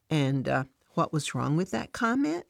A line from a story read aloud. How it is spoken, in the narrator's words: Jesus asks